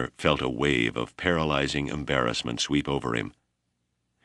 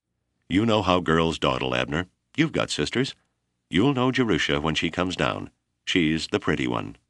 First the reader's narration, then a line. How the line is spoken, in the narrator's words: Bromley joined the laughter and said